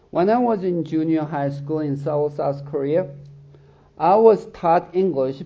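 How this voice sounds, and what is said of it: Korean-accented English. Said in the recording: “If you think I have a bad accent”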